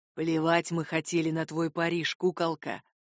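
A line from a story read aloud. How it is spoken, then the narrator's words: Insinuating, into ear. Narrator (Russian): вкрадчиво произнес рыжий мне на ухо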